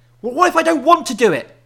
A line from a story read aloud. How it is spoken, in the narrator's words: He yelled